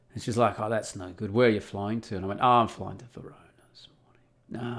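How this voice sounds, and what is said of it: Australian accent. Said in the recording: “she can tell I got an Australian accent.”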